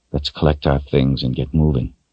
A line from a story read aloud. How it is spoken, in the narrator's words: he said softly